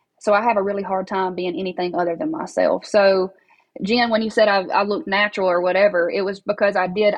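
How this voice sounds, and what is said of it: Thick regional accent. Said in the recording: “this thick accent”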